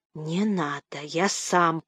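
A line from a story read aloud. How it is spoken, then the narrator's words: Through gritted teeth. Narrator (Russian): проговорил сквозь зубы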